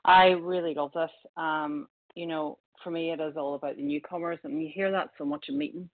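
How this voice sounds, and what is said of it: Irish accent. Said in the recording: “with an Irish accent”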